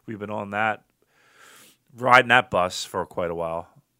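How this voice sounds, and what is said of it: Strained, hoarse voice. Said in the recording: “losing my voice ... I'm a hurting pup here”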